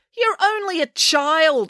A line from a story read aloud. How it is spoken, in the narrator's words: exclaimed Mrs